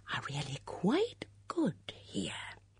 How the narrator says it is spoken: Miss Bunner said in a conspiratorial whisper

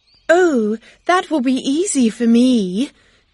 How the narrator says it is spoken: Miss Bates said happily

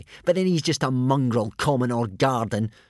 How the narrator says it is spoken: scoffed Snotlout

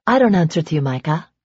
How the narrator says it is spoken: she said evenly

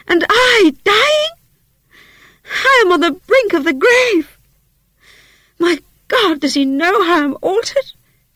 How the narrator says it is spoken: she cried, confounded

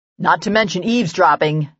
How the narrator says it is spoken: Nathan growled

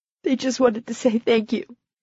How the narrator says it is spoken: Carrie said in a choked voice

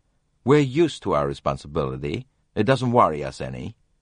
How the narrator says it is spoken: said curtly

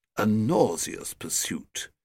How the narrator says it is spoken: said the oldest member coldly

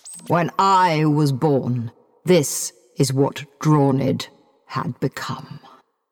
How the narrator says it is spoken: he said gravely

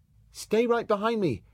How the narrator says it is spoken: he shouted to Marina

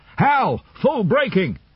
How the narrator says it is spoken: that shout over the radio

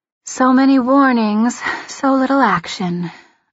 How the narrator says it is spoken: I sigh

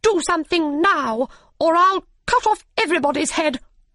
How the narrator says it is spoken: said the Queen angrily

